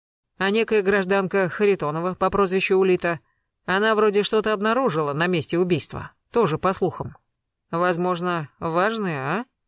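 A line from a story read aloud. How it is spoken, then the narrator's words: Calm unhurried question. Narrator (Russian): Гектор спрашивал спокойно, неторопливо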